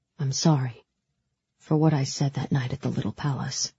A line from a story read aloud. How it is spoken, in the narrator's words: he said quietly